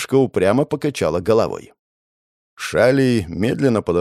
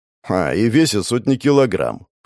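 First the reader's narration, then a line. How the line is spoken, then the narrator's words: Skeptical snort. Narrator (Russian): хмыкнул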